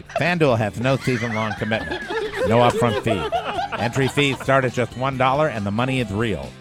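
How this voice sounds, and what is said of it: Radio DJ announcer voice. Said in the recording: “DJ voice”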